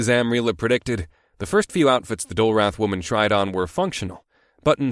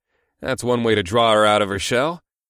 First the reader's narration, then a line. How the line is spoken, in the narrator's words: I chuckled